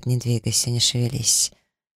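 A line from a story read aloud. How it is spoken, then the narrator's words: Hoarse request. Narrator (Russian): Таир хрипло просит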